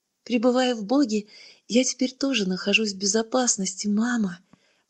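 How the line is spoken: Whispering. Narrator (Russian): прошептал Беттекен

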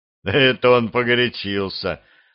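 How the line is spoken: Laughing. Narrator (Russian): рассмеялся Костя

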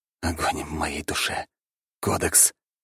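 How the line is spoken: Whispered. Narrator (Russian): прошептал

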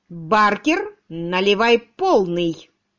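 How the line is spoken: Loud command. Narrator (Russian): громко приказал сэр Генри

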